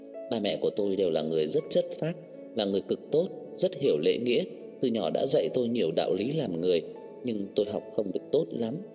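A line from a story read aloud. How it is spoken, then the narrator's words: Gentle, smiling. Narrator (Vietnamese): Nhã Tuệ mỉm cười dịu dàng nói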